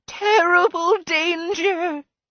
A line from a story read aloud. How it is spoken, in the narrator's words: She wailed